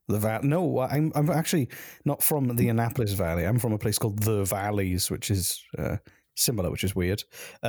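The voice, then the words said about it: Non-Canadian foreign accent. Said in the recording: “I'm not from Canada. This accent is a bit different.”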